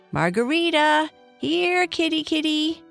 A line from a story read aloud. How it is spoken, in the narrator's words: Libby called out again